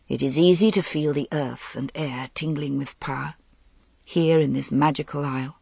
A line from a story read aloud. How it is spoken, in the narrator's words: He said in a low voice